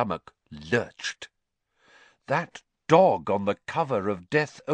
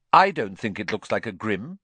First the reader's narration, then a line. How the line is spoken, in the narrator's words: she said flatly